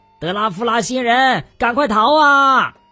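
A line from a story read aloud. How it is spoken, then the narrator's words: Shouting. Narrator (Chinese): 又有人喊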